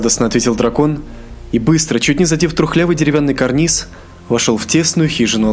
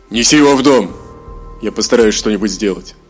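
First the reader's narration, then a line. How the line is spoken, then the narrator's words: Stern hermit's command. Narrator (Russian): отшельник строго приказал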